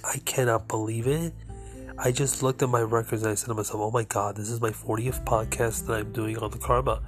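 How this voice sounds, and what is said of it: Slightly nasal voice. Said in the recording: “if I sound a little nasally. ... I'm coming over a cold”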